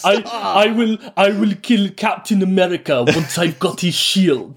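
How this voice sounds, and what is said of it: Fake Russian accent. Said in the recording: “speaking with fake Russian accent”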